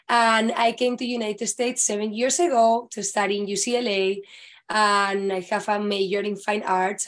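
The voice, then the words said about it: Spanish accent. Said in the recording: “If you can tell from my accent, I'm from Spain”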